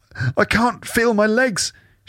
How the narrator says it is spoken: she whimpers, tears welling in her eyes

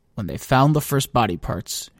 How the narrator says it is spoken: she murmured

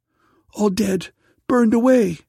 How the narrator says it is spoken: cried the daughter

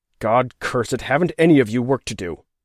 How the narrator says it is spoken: he growled

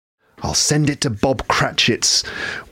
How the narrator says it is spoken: whispered Scrooge, laughing

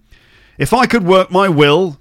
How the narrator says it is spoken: said Scrooge indignantly

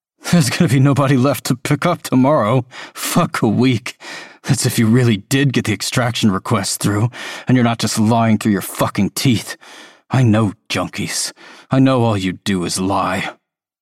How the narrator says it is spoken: Tolliver gives a bitter laugh

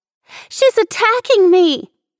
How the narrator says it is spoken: Nicole shrieked

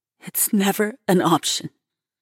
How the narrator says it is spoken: stutters

